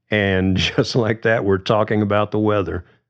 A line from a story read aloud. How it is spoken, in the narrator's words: Polly laughed